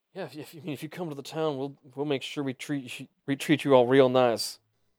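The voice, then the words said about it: Put-on character accent. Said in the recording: “Got that accent.”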